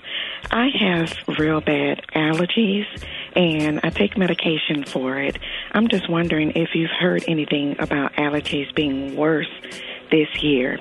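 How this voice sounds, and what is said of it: Slightly hoarse voice. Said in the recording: “now you can probably hear that I'm a little hoarse.”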